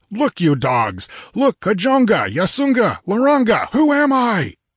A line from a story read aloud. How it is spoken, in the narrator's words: rose a shout that swelled to a mighty roar